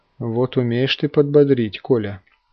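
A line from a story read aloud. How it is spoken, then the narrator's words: Wife's gentle reproach. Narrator (Russian): мягко упрекнула его жена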